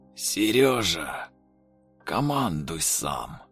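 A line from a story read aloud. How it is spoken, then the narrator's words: Strained forced words, older man. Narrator (Russian): Выдавил из себя пожилой мужчина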